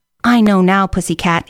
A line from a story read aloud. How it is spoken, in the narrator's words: said